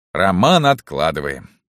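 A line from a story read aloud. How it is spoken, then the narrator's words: Sighing. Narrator (Russian): вздохнул рикша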